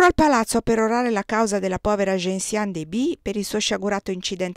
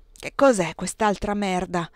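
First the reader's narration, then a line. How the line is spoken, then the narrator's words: Muttered in Yiddish. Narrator (Italian): mormorò in Yiddish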